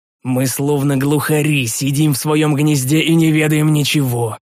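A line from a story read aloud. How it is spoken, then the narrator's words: Angry exhale. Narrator (Russian): выдохнул я злобно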